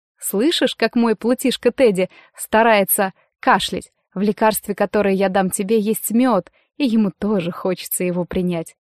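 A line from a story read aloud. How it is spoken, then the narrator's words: Sly whisper. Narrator (Russian): лукаво взглянув на него, шепнула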